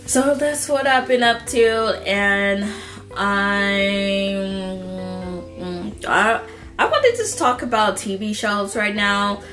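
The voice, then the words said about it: Sick-sounding voice. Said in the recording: “I'm still sick, if you guys can hear it in my freaking voice.”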